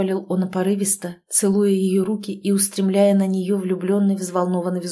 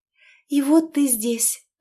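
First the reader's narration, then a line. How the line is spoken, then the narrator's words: Happy babbling. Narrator (Russian): пролепетала счастливо она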